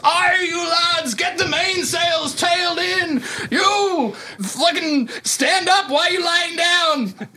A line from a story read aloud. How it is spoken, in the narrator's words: The captain shouts